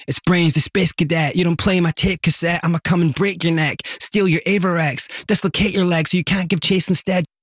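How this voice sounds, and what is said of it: Rapping in a heavy Scottish accent. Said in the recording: “So the Scottish version would be ... It would have been like heavy, like Dundonian.”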